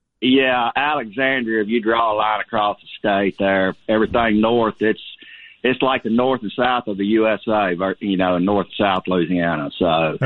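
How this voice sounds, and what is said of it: North Louisiana Southern accent. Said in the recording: “that North Louisiana accent”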